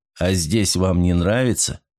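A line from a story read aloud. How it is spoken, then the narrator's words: Calm inquiry. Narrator (Russian): спокойно поинтересовался Ройл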